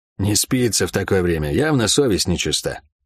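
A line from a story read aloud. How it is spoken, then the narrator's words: Mumbled. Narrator (Russian): пробормотал Гаррет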